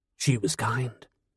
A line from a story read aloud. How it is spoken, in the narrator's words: Merlin answered softly